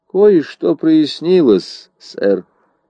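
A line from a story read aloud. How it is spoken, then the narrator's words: Flat colorless voice. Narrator (Russian): ответил Ламонт бесцветным голосом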